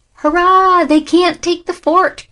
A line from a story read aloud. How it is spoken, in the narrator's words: cried those inside the stronghold